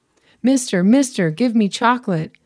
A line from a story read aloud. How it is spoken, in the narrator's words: an Iraqi boy shouts